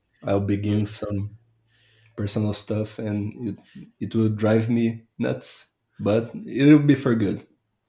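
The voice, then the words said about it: Brazilian accent. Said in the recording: “by my accent, you may guess... that I'm Brazilian”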